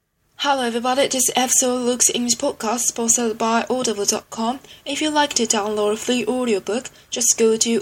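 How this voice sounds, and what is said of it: Impression of podcast host Luke. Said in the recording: “send in your impressions of me ... here is ... impression of me”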